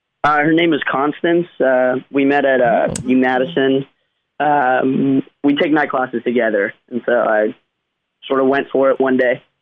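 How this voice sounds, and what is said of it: Georgia Southern American accent. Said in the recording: “I'm from Georgia originally ... I like that accent ... he's got an accent”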